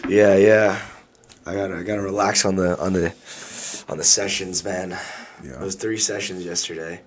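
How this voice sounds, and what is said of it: Hoarse, strained voice. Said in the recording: “I lost like my voice. ... Lost my voice.”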